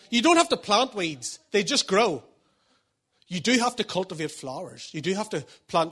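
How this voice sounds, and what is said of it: Posh-sounding, unusual accent. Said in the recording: “I keep sounding posh. People said to me recently, you've got a weird accent when I say flowers”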